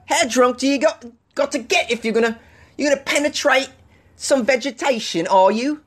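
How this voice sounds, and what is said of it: Put-on British accent. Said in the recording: “It's a pretty good accent, right? ... I'm sure the people from the UK will call me and complain about that one.”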